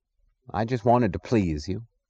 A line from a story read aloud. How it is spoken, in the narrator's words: he added sullenly